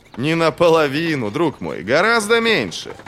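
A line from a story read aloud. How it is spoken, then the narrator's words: Laughing. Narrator (Russian): Бояз засмеялся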